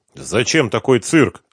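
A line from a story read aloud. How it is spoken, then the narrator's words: Stern question. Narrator (Russian): строго спросил Ренат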